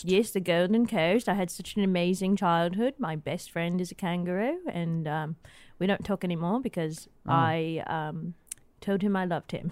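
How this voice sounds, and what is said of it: Put-on Australian accent. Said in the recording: “I'm detecting an accent ... So what accent is this? ... Australian.”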